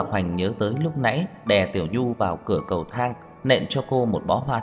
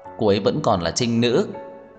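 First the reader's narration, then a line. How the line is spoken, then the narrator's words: Relieved sigh, then wailing. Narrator (Vietnamese): Anh thở phào một cái mới gào khóc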